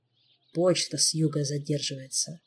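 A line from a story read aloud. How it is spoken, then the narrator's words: Condescending grumble. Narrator (Russian): проворчал Шелар, словно делая всем великое одолжение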